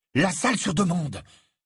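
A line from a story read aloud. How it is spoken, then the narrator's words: Exclaimed. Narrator (French): s'exclama Harry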